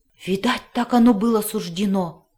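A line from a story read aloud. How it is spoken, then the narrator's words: Hoarse gasp, dog. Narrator (Russian): хрипло выдохнул пес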